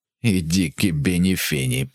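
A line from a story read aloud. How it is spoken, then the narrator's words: Hiss. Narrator (Ukrainian): просичав Пол Лазаро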